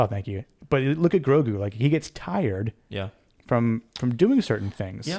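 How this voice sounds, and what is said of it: Usual voice. Nothing is said of it.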